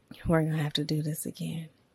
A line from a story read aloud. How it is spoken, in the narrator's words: Addie said, his voice raspy